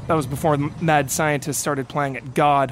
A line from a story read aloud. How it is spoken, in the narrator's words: Hunk replied